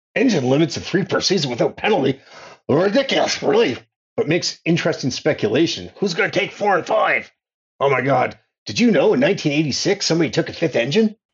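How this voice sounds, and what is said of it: Impression of a co-host. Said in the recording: “it's time for you to flex your impressions... do your Phil now”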